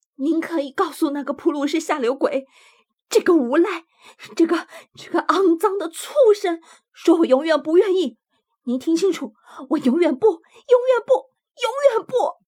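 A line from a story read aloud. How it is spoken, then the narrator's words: Shouting. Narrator (Chinese): 他嚷着说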